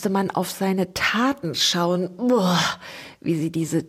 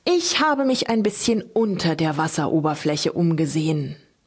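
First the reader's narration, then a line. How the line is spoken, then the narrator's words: Continuing an explanation. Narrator (German): setzte der Bänderoog seine Ausführungen fort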